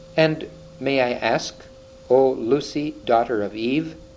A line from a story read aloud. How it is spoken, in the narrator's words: said Mr